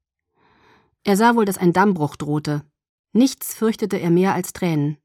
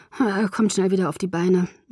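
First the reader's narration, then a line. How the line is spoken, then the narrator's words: Murmured. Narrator (German): murmelte ich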